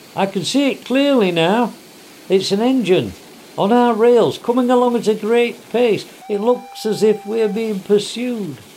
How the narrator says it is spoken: he called out

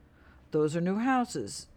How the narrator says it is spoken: Gina's dad replied

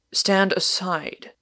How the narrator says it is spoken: repeated Warner roughly

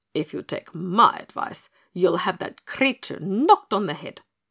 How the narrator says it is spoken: said Matiah savagely

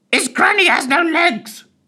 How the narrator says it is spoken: shrieked the parrot

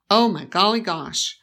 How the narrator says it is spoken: Rose's father exclaimed with his auctioneer's jolliness

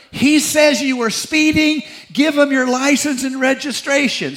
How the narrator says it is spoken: shouted at her

